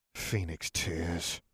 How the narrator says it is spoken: Tom Riddle hissed

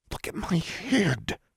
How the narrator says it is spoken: Alexandra said, almost hissing

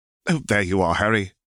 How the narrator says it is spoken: exclaimed Roger

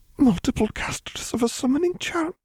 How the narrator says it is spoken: she whispered

